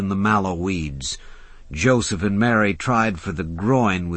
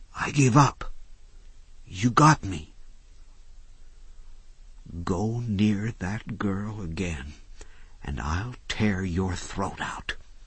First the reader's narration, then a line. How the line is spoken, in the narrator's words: Doc whispered back